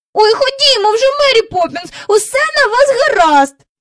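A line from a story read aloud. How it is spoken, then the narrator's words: Impatient cry. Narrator (Ukrainian): нетерпляче скрикнув Майкл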